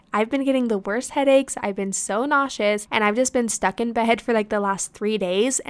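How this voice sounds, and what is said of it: Sick, sniffly voice. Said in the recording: “if you guys just can't tell from my voice, I'm kind of sniffling every once in a while... I have been so sick”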